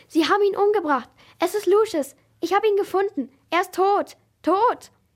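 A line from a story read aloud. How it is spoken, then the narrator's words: Stammering. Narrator (German): stotterte er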